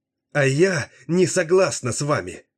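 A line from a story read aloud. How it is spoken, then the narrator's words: Angry shout. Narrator (Russian): гневно выкрикнула она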